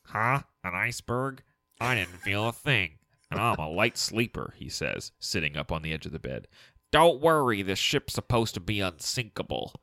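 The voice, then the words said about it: Nasal nerdy character voice. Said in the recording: “I'd held my nose and done the nerd voice.”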